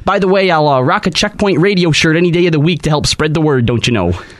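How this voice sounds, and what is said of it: Inconsistent put-on Canadian accent. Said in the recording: “How many times did you slide in and out of it? ... He's from Winnipeg, not from fucking Fargo. ... your version of a Canadian accent”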